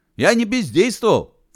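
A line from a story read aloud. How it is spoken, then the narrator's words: Panicked shout. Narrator (Russian): в панике закричал Целоп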